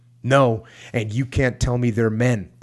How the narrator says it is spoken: the Marine said, not shouting now

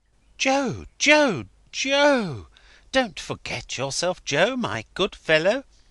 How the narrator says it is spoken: Crisparkle interposed, remonstrating aside in a friendly voice

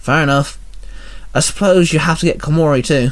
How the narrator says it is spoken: Penny sighed

